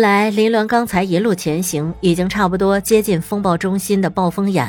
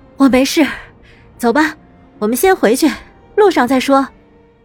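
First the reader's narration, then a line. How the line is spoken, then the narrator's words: Tired, breathless. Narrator (Chinese): 他喘了口气……便道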